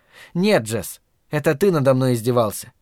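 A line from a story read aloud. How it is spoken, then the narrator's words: Furious snort. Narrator (Russian): фыркнула она во внезапном яростном приступе злобы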